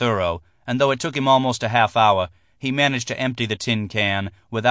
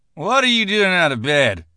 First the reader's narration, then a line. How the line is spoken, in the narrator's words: the man demanded, slurring the words